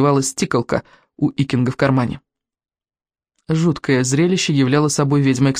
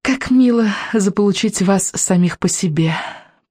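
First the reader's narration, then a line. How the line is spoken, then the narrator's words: Cooing. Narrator (Russian): проворковала она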